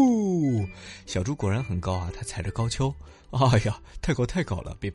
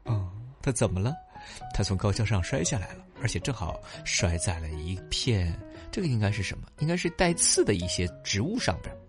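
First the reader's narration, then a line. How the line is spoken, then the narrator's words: Exclaiming. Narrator (Chinese): 小猪感叹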